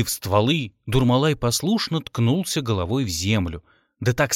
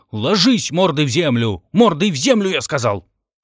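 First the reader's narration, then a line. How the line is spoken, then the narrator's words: Startled, frightened yelling. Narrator (Russian): Кирин от неожиданности испугался … и заорал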